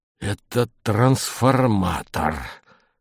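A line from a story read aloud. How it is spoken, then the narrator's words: Hoarse. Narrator (Russian): хрипло сказал Пискунов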